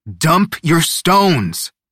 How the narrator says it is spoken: Aurelio shouted, like he couldn't believe they were stalling

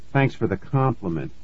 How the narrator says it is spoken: I muttered

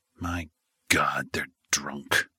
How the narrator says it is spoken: he muttered quietly

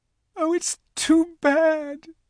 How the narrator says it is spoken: sobbed Lucy

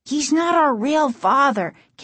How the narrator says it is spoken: Casey cried

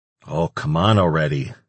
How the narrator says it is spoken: Antonio grumbled

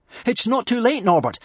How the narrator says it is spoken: panted Hiccup

